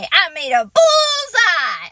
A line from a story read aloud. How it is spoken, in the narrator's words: I hollered real excited